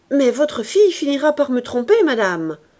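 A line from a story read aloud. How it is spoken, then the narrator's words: Angry exclamation. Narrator (French): s'écria Auguste, repris de colère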